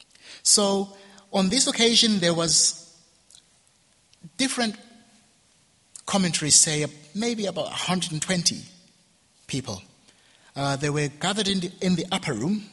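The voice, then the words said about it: Ugandan English accent. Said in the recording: “my Ugandan accent is kicking in”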